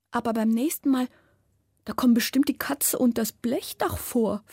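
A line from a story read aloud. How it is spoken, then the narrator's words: Pleading. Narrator (German): flehe ich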